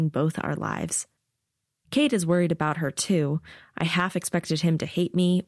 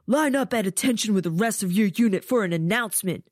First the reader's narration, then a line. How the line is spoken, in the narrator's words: he shouts